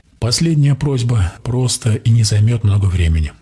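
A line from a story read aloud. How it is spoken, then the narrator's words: Plain. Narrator (Russian): сказал я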